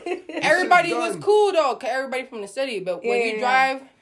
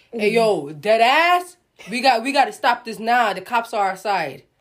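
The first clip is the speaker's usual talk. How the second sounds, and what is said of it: Put-on strong New York accent. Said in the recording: “some guy in the most New York accent ever”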